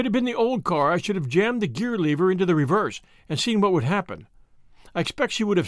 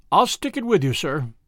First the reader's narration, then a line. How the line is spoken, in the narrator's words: said he